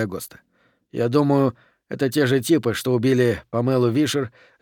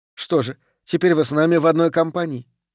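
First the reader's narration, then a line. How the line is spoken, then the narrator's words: Snorting. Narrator (Russian): фыркнула Хейвард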